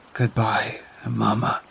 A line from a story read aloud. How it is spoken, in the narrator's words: whispered